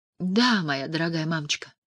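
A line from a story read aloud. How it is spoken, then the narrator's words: Whisper. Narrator (Russian): прошептала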